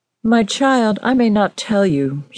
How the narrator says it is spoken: she replied

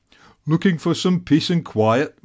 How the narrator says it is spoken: Bob grumbled

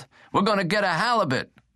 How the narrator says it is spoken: Dominguez yelled

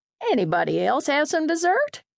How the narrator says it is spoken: she asked brightly

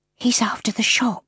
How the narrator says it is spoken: whispered

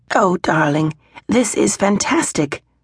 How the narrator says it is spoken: her mother exclaimed

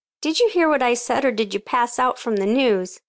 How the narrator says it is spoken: Annie laughed

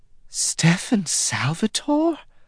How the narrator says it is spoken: she gasped

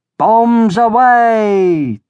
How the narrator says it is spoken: yelled

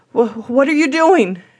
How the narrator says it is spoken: cried

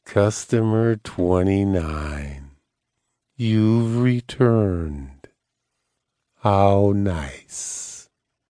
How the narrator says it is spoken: said in a lazy voice

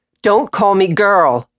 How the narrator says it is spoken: yelled

